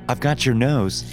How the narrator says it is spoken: said playfully

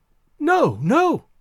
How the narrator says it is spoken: cried the girl

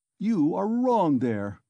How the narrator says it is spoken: cried Porfiry Petrovitch

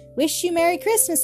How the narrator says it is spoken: he called out to Nora and Tot

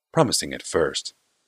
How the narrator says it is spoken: said Barl with a sigh

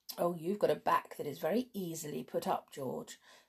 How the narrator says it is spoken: said, laughing

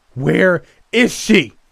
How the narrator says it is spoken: I screamed out, begging

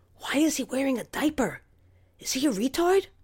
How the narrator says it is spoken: whispered

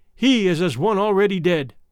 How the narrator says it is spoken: the proud ones who cried

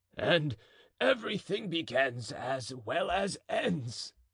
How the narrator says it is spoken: said the keeper with a coarse laugh

